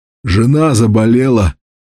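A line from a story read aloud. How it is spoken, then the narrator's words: Hoarse reply. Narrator (Russian): хрипло ответил тот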